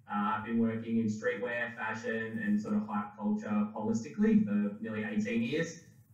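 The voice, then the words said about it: Australian accent. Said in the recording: “from Melbourne, Australia, as you can probably tell from the accent”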